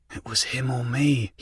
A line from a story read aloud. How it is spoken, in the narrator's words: he muttered in an attempt to ease his conscience